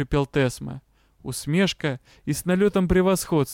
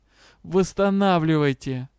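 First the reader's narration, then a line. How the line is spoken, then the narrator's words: Mocking tone. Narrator (Russian): Лорд Элохар все так же с издевательскими интонациями произнес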